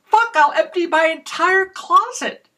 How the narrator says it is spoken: I stopped myself from shouting

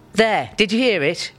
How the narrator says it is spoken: Robert shouts

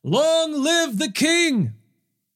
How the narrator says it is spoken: all the people shouted

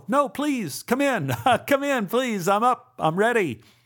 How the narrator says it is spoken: I screamed

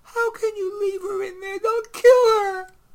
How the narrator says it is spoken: Emily pleaded

